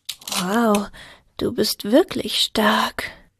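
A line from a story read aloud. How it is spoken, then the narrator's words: Murmured. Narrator (German): murmelte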